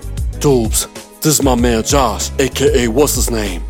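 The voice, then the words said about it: Deep Barbadian accent. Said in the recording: “in his deep Barbadian accent”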